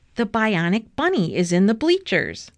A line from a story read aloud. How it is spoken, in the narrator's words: shouted Arthur